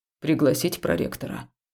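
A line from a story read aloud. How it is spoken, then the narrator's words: Dry, curt question. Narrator (Russian): сухо спросил Хаул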